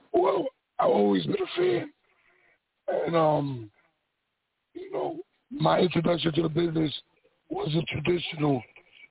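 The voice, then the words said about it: Raspy, strained voice. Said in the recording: “I'm sorry about my voice. I kind of lost ... So sorry, my voice sounds a little raspy.”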